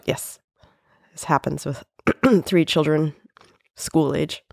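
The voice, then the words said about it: Growly, deeper voice from a cold. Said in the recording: “my voice is a little bit more growly and more manly than usual ... this is not my normal voice ... You got a cold.”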